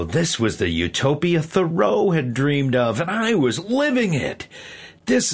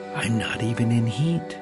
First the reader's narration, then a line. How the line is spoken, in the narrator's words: she rolled over and whispered in my sound membrane